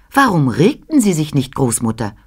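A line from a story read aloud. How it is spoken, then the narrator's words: Plain question. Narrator (German): fragte ich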